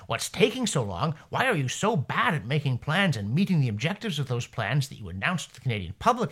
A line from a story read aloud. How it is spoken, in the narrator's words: Wilkinson snapped